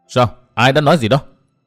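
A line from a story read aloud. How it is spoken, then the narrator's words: Furious shouted question. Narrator (Vietnamese): đỏ mặt tía tai, máu dần xông lên khó dằn được, chàng quát hỏi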